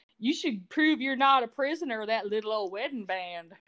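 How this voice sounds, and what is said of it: Put-on Southern accent. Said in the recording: “I'm going to try to do a Southern accent at least as well as Sandy ... I think you did do as well as Sandy.”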